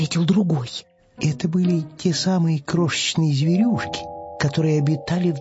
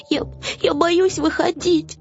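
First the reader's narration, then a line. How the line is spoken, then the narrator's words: Sobbing. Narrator (Russian): всхлипнул Финдус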